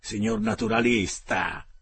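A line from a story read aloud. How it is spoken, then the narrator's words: Mocking tone. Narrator (Italian): mi disse in tono canzonatorio il canadese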